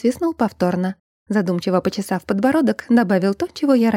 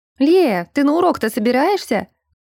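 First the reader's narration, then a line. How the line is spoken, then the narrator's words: Shout. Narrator (Russian): крикнула мне Сандри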